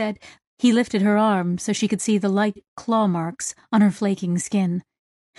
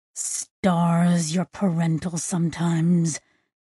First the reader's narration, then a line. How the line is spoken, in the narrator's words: Sissex mumbled